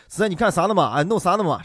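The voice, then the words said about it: Imitated Xinjiang-accented Mandarin. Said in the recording (Chinese): “新疆的警察叔叔说的是江普啊 ... 就感觉这个口音是有一股子羊肉串的味道啊，有一点可爱”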